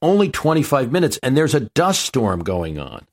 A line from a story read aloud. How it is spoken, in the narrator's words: The pilot screamed back